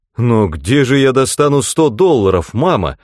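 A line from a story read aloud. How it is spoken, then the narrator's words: Exclaiming. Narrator (Russian): воскликнул он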